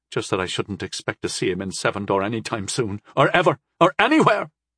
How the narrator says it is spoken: she sputtered

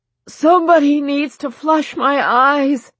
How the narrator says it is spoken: Jensen yelled

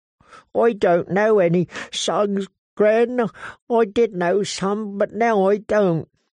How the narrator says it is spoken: He sobbed again and said

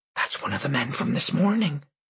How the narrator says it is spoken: Janet whispered

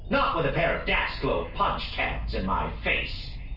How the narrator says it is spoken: Rosku growled

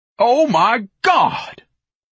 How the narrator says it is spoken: Ignatius bellowed

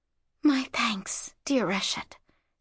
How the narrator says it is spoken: she whispered

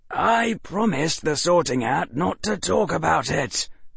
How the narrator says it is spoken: whispered Harry for the umpteenth time

